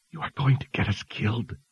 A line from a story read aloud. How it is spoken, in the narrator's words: Sister Georgia whispered as she hustled between wagons